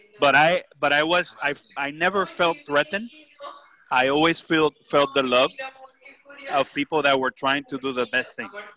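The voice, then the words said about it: Puerto Rican accent. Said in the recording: “my Puerto Rican accent”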